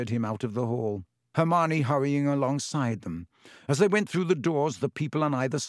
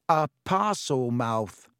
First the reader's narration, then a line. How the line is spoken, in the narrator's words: said Ron